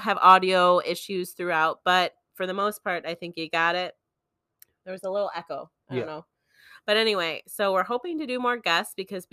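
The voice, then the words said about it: Hoarse, strained voice. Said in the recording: “I'm losing my voice, about to have a cough attack”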